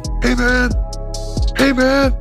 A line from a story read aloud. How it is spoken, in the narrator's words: He started shouting